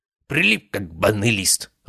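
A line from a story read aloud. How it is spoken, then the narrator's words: Growl. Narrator (Russian): рыкнул целитель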